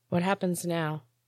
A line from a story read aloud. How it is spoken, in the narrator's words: asked quietly